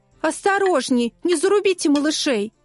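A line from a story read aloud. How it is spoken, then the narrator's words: Women shouting a warning. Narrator (Russian): тети-принцессы все охали и восхищались и кричали рыцарям в черных плащах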